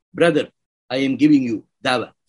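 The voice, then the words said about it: Exaggerated guttural Arabic accent. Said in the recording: “in an Arabic accent with a guttural accent”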